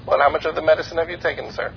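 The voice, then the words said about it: Put-on Indian accent, wavering. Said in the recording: “I did commit to the Indian voice ... It does waver.”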